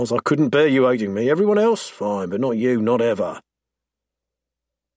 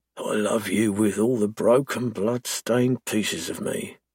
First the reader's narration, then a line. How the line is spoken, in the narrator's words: he murmurs